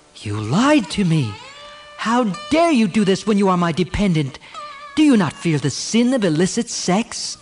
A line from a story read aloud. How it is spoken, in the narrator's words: Devayani called to Sarmishta and exclaimed